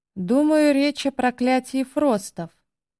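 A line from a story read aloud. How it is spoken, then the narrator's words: Sighing. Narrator (Russian): вздохнул Олов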